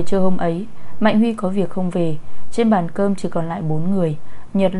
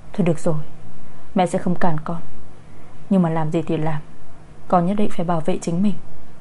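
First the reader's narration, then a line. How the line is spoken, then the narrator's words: Sighing, gently advising. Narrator (Vietnamese): Bà Oanh nghe vậy thở dài, khuyên nhủ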